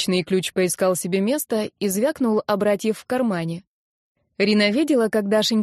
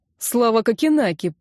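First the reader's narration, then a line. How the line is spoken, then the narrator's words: Grumbling mutter. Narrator (Russian): пробурчал базовец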